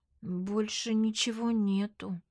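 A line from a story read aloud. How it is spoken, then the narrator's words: Quiet reply, nurse. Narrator (Russian): тихо отвечает медсестра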